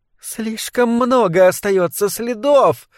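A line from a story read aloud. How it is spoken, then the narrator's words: Purring exclamation. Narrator (Russian): воскликнул мурлыкающий голос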